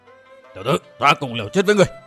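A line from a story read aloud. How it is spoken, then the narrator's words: Group roaring. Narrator (Vietnamese): cả năm tên đầu mục cùng gầm lên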